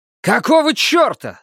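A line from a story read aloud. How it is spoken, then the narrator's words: Yell. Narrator (Russian): завопил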